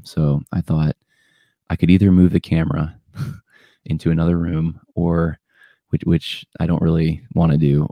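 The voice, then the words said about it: Whispering, soft NPR-style voice. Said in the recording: “Why is ... whispering? ... it's late at night, and it's my NPR voice.”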